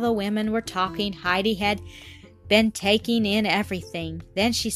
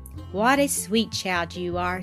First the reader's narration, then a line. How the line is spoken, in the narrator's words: said the grandmother tenderly